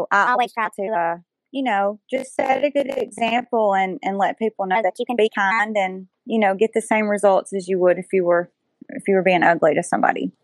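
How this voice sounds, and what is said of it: Alabama Southern US accent. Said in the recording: “in case anybody could not tell with my accent. Yes, Alabama, the northeast part of Alabama.”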